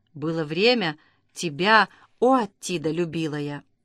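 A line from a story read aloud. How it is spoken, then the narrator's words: Whisper. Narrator (Russian): прошептав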